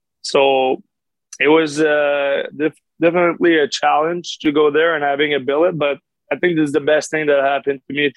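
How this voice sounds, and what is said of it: Quebec French-accented English. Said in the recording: “you can tell with my accent, I didn't really know English at that time ... in Quebec, we learn English, but not that much”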